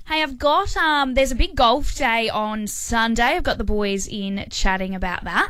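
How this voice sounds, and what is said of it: Sick-sounding voice. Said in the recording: “As everyone can hear in my voice, I'm only just starting to get better”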